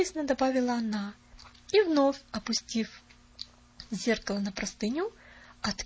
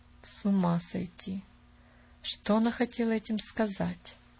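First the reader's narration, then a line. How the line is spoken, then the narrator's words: Muttered in disbelief. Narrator (Russian): пробормотала мисс Сноу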